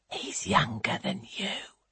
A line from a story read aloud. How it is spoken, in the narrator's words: She leans to whisper in her friend's ear